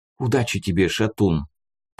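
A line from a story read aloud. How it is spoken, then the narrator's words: Whispered in ear. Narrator (Russian): прошептал на ухо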